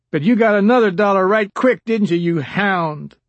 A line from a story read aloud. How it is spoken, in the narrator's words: Abel Hines shouted